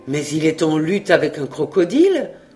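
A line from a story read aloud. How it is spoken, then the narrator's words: Exclaiming. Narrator (French): s'écria Jacques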